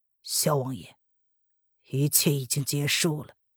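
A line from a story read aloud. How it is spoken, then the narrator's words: Low laugh. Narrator (Chinese): 不由得低声笑了出来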